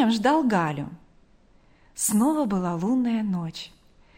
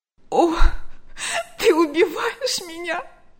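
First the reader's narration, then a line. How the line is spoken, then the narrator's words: Sobbing. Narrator (Russian): рыдала она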